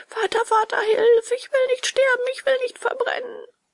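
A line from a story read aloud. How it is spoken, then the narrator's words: Wailing. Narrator (German): sein Jammern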